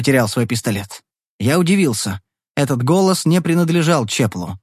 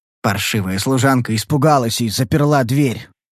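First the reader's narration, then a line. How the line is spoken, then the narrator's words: Defensive grumble. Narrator (Russian): проворчал как бы оправдываясь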